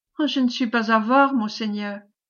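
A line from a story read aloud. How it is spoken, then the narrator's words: Plain. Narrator (French): dit-il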